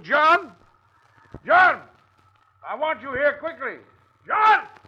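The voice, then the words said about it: Shouting a name. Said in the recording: “I was not shouting your name to give my lungs exercise.”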